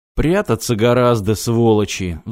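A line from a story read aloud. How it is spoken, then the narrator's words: Sigh. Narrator (Russian): вздохнул Кувалда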